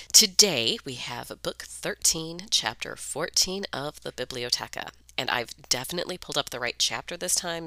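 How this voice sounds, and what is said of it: Phlegmy, congested voice. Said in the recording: “I'm phlegmy today, so hopefully I'll make it through this episode without losing my voice.”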